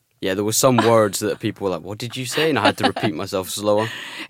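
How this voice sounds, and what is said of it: Scottish accent. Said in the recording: “the way you say things in your accent. The Scottish accent is great though. Keep it.”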